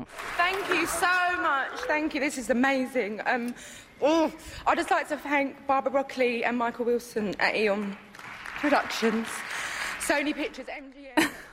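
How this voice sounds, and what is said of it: Strong British accent. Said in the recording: “I honestly couldn't make out about half of what she said. I mean, that girl has one serious British accent”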